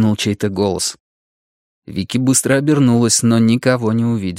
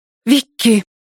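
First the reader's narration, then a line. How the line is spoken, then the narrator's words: Sharp, very close. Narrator (Russian): резко произнес кто-то совсем рядом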